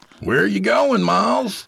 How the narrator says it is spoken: Jacob shouted after him

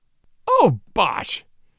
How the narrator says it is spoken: cried Father Brown

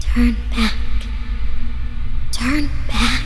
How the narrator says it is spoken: a strange sound, like a girl's voice whispering the words

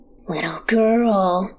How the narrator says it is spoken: he rasps

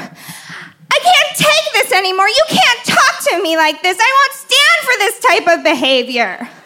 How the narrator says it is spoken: suddenly shriek

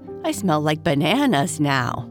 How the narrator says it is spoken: Bernice said with a laugh

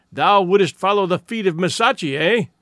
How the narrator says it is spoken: he cried angrily

